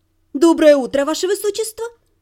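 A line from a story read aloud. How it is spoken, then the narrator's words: Cheerful greeting. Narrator (Russian): бодро поприветствовала я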